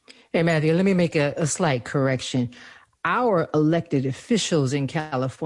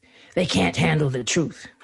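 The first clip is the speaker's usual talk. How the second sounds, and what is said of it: Imitates another person's voice. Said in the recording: “my Jack Nicholson imitation.”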